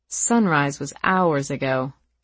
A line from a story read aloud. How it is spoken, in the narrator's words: Katie snorted